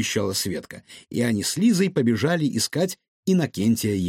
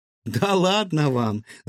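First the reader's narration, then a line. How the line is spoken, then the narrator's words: Laughing. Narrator (Russian): засмеялась Илона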